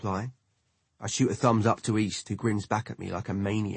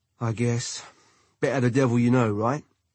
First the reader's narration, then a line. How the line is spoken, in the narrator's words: he comments, sighing in defeat